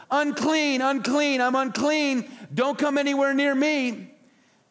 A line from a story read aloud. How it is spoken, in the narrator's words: yell